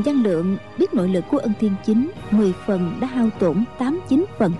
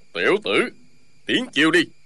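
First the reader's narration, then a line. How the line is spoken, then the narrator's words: Shouted. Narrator (Vietnamese): Ân Thiên Chính quát lên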